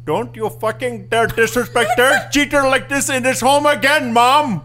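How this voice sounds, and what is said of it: Put-on Indian accent. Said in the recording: “The first accent is Asian ... That was Indian Asian.”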